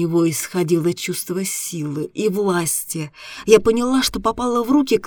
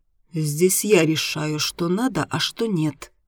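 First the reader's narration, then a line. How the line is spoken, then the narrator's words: Calm. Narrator (Russian): спокойно сказал Дима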